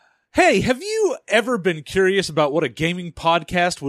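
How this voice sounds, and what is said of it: Usual voice. Nothing is said of it.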